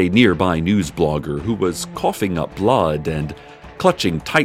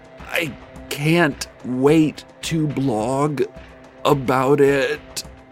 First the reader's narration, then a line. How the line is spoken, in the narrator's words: the blogger said through gritted teeth